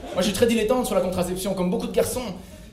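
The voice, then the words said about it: Belgian French accent. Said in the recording (French): “avec l'accent belge”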